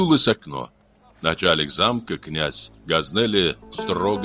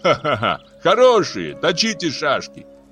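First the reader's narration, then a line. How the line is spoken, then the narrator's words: Young man's laughing shout. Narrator (Russian): смеясь, крикнул юный азнаур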